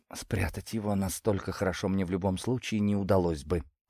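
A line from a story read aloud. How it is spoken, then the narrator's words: Quiet answer. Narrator (Russian): так же тихо ответила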